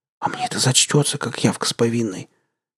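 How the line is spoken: Whisper. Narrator (Russian): прошептал

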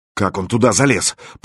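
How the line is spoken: Muttered. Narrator (Russian): пробормотал Мировой

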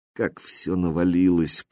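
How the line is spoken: Muttered. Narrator (Russian): пробормотала она

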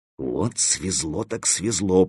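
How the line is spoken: Muttering. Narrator (Russian): пробормотал Стопка

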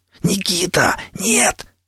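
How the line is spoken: Hissed. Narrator (Russian): зашипел я вслед

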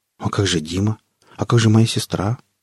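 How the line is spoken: Quiet, slightly hurt objection. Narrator (Russian): Катерина тихо, почти обиженно возразила

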